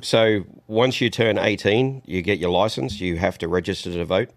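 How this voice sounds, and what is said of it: Foreign accent described as sexy. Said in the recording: “I understand the jokes about the accent, but it sounds quite sexy from my end ... the ... Sexy Accent Show ... That's your accent”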